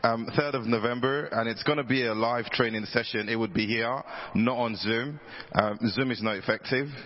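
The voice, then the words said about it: Hoarse, fading voice. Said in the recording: “I don't know why I'm losing my voice.”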